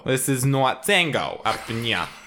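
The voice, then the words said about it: Put-on New York accent. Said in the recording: “Is this a New York accent? ... I don't know. It's borderline Christopher Walken.”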